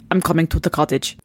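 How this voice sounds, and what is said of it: Put-on Russian accent. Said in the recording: “Your Russian accent is very nice. ... Very good. Yeah, very good.”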